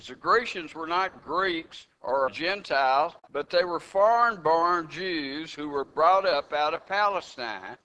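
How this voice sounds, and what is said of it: Texan accent. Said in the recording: “Some people don't like Texans, especially don't like my accent”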